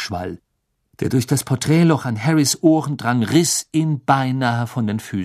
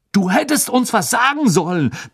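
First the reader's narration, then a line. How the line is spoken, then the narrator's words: Annoyed, impressed bellow. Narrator (German): brüllte Fred halb verärgert, doch auch schwer beeindruckt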